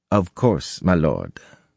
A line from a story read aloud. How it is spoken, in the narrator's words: Lopin said blandly